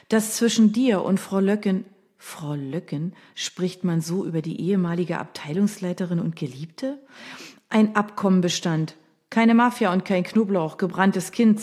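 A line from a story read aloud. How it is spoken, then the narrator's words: Plain. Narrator (German): sagte mir Anna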